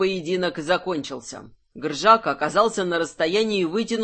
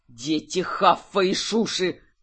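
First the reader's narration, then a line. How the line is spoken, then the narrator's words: Growled. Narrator (Russian): зарычал Гржак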